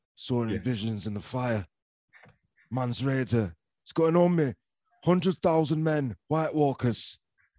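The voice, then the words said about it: Put-on Northern English character voice. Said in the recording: “a voice do you think he's deliberately put on rather than him just doing a Northern accent”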